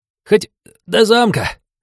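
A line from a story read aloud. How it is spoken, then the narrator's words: Self-sacrificing whine. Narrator (Russian): самоотверженно проскулил парень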